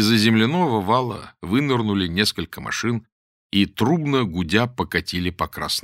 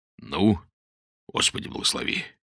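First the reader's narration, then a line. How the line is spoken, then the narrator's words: Muttered. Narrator (Russian): пробормотал Модест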